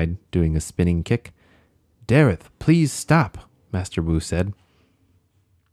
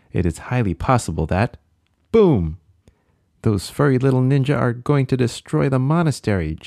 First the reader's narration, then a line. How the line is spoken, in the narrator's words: Jay cried